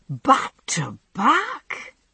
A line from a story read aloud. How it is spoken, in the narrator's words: exclaimed